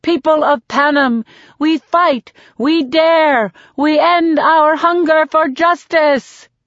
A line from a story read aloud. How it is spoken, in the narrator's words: yell with all the anger I can muster